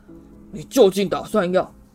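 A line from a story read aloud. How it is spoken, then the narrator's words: Shouting. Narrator (Chinese): 他对着炉火喊道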